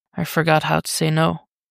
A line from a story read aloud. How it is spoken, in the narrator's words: Dick murmurs